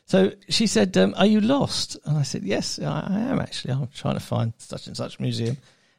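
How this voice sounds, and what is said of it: English accent. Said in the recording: “she must have heard the accent ... are you from England? And I said, yes, actually, just outside London.”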